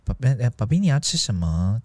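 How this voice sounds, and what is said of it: Imitating a couple's sweet talk. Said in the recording (Chinese): “模仿薛薛跟他的另外一半讲话 ... 你模仿一次”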